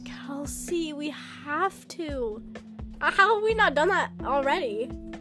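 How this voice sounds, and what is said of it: Southern American accent. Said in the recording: “You do have a southern accent.”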